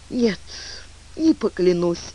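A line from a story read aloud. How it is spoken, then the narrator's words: Sighing. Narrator (Russian): вздохнула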